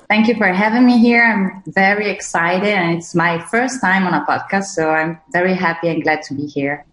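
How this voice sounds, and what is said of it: Non-native English accent. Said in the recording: “We obviously hear your the different accent. ... English is not your first language”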